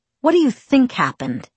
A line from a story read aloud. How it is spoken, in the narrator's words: he snapped